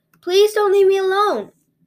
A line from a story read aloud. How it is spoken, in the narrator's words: cried the little girl